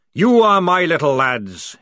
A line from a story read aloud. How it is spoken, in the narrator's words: he roared